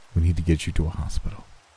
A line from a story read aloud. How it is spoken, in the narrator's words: he said gently